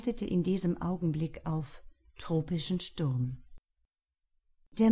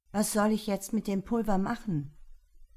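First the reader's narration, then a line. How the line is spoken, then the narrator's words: Shouting over the wind. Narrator (German): rief Tian Shu über das Pfeifen des Windes hinweg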